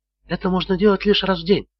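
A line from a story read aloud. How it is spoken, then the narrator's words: Whisper. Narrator (Russian): шепотом сообщила Холли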